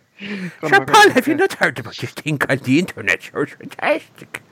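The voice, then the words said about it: Put-on Irish accent. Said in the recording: “My impression. ... So just a racist Irishman, basically. ... Is that Conor McGregor at a press conference?”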